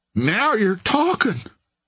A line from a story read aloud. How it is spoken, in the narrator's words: cried Bony Sawyer